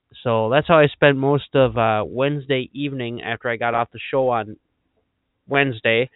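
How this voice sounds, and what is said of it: Slightly raspy voice. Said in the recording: “I regained my voice about Saturday night, roughly. And as you can tell, it's still a little bit raspy”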